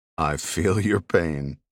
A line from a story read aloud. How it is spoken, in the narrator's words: Jack said with a laugh